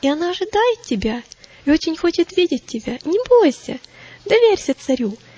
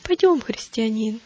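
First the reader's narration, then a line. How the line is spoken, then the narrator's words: Gentle, affectionate. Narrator (Russian): ласково сказал он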